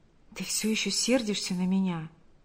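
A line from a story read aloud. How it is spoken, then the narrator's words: Whisper. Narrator (Russian): прошептал Павел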